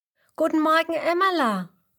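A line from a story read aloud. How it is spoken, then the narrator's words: Calling out greeting. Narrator (German): ruft Huberto ihr zu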